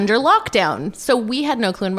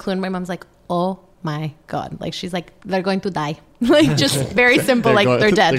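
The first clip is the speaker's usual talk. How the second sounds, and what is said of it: Imitation of mother's accent. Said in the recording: “with that accent? ... Both my parents have great accents”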